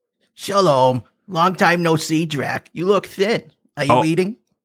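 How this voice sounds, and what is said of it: Put-on accent in character. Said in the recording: “What a time for this accent to be present.”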